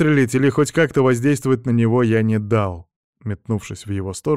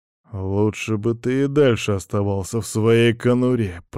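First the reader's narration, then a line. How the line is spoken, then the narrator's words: Man speaking through teeth. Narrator (Russian): процедил мужчина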